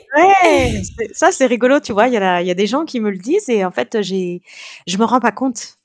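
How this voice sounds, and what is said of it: French with an Italian accent. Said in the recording (French): “tu as pris quand même l'accent euh, italien”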